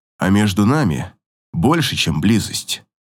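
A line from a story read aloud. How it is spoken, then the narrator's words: Quiet. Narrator (Russian): тихо произносит он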